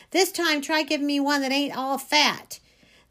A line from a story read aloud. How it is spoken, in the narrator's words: hollering